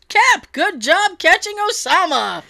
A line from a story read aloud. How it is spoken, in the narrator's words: someone in the back yells